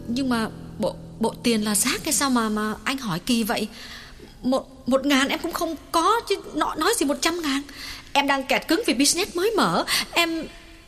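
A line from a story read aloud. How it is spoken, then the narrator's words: Trembling, emphatic. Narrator (Vietnamese): Nàng lặng người một chút rồi run run nhấn mạnh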